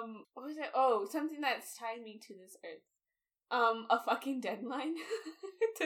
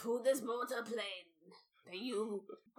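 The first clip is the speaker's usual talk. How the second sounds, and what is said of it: Cartoon dragon character voice. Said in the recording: “You sound like a character from Mulan. ... Mushu!”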